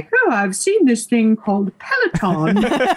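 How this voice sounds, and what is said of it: Poor put-on British accent. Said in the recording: “It's a good thing your husband is actually British, or that would be insulting. ... He thinks my British accent is terrible, which pretty much is.”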